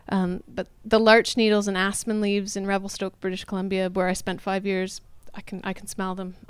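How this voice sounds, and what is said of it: Canadian accent. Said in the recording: “I'm Canadian if you can't tell by the accent”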